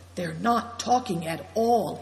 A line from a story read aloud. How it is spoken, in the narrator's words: he whispered